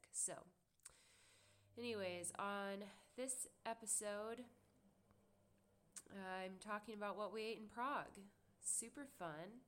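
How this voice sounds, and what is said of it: Sick voice from a cold. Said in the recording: “if you can't tell already, I am quite ill. Caught a cold. ... I'm talking as loud as I can right now. ... my voice was really quiet ... but also I'm sick.”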